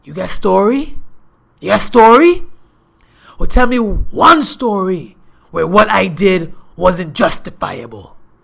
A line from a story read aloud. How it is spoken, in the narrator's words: he yelled out over the phone